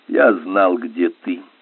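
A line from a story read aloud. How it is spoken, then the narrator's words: Cold. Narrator (Russian): холодно сказал Генри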